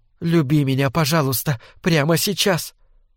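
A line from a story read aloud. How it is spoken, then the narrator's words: Rapid female mumbling. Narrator (Russian): быстро забормотала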